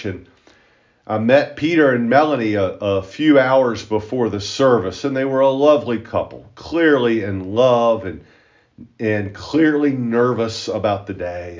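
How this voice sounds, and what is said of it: Loud deep Appalachian accent. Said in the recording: “my loud and deep Appalachian accent”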